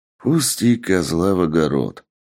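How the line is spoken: Sighing. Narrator (Russian): вздохнул босс

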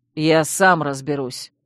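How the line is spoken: Angry snarl. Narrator (Russian): рыкнул разозленный Чейз

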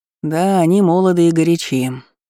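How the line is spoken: Sigh. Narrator (Russian): вздохнул синеглазый

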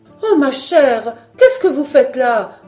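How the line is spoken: Ladies exclaiming together. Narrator (French): s'écrièrent les dames

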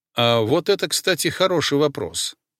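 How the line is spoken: Calm interjection. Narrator (Russian): спокойно вмешался я

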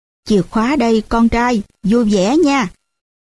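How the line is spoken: Smiling father. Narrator (Vietnamese): Ba chỉ mỉm cười thôi và nói

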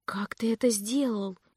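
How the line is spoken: Stunned whisper. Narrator (Russian): прошептала я ошеломленно

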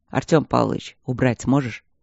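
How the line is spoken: Quiet question. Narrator (Russian): тихо спросил Стрелковский

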